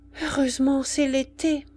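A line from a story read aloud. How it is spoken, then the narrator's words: Sighed, woman. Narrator (French): soupira la femme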